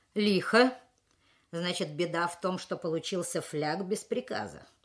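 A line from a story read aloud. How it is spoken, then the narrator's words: Mocking question. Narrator (Russian): насмешливо поинтересовался начальник училища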